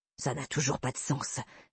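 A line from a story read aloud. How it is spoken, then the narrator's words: Grumbled. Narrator (French): grommela Bobby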